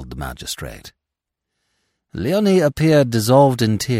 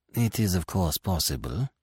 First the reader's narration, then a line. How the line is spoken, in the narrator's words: said the magistrate smoothly